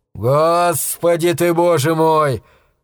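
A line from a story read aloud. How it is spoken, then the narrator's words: Man exhaling. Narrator (Russian): выдохнул мужчина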